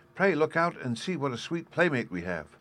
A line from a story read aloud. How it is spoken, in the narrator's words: cried Violet